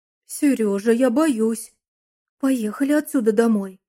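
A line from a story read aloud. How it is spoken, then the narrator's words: Frightened exclamation. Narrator (Russian): испуганно воскликнула жена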